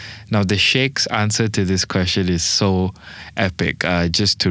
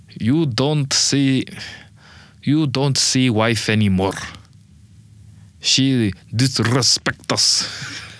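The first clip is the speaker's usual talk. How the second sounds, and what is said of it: Put-on Arab accent. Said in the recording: “I want to do an Arab accent.”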